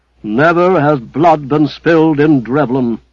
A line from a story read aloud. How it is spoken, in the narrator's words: cried the head clerk in an awful tone